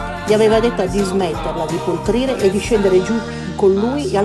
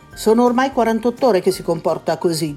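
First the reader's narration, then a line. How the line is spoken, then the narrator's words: Plain. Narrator (Italian): disse Danosha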